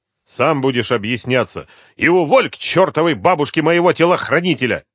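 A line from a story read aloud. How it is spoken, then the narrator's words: Barking. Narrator (Russian): рявкнул Артемьев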